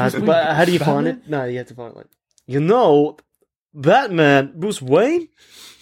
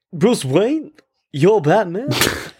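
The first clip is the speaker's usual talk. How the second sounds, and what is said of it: Imitates another person's voice. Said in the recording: “You do a Max Schreck voice, ... From Batman Returns? ... That's terrible.”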